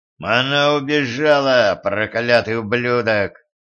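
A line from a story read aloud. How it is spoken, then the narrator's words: Growling. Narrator (Russian): рычал Силк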